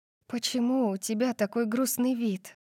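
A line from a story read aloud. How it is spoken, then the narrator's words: Whisper. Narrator (Russian): прошептала я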